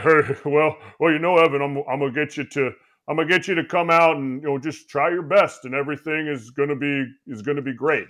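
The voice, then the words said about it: Imitates another person's voice. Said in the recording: “does anybody do a good Bochy impersonation? Like a real, like,”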